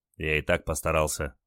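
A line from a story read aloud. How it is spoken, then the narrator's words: Grumbled mutter. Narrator (Russian): буркнул Олег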